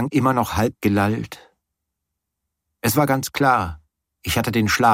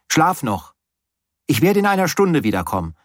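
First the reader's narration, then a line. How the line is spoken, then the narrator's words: Called out. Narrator (German): rief ich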